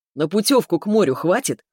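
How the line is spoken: Chuckling. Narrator (Russian): хохотнул Субботкин

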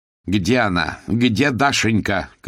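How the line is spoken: Shouted. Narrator (Russian): крикнула Хвощева-младшая

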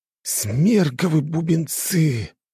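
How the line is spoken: Shocked breathless exclamation. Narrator (Russian): потрясенно выдохнул Слай

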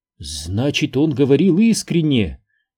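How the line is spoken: Astonished exclamation. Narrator (Russian): изумленно воскликнула Виерта

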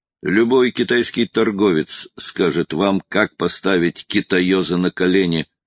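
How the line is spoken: Rough reply. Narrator (Russian): грубо ответил Брок

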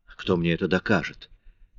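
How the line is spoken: Mumbled. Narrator (Russian): пробормотал Мариус

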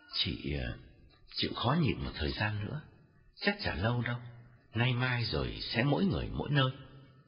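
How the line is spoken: Gentle, soothing advice. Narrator (Vietnamese): nhẹ nhàng khuyên

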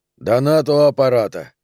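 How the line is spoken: Firm voice. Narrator (Russian): сказал он твердым голосом

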